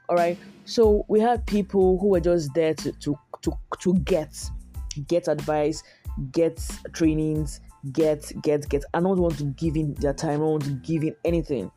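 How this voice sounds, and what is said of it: Stuffy, congested, dragging voice. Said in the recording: “my nose is getting stuffy, and so I'm sorry that my voice is sounding this way and I'm dragging”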